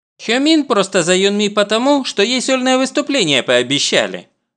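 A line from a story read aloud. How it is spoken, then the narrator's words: Plain. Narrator (Russian): говорит Джихён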